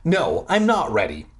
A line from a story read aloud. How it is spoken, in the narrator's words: I snapped